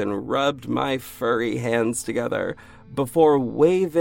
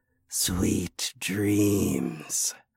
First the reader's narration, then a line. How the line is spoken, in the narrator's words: I whispered